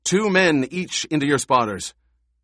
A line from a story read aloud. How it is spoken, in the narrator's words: shouted